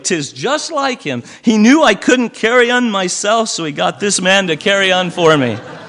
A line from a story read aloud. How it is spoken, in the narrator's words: cried Billy